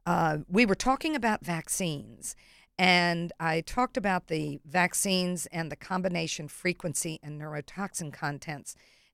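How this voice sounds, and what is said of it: Hoarse, strained voice. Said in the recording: “Cheering at a game. I'm losing my voice.”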